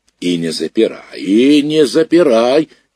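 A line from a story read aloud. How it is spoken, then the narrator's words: Grandmother shouting from porch. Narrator (Russian): кричала бабушка с крыльца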